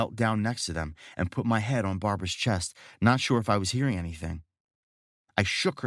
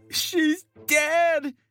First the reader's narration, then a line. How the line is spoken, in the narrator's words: Haywood cried